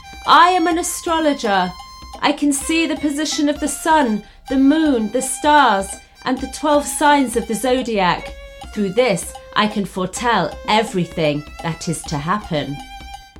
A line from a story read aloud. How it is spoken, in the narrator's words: shouting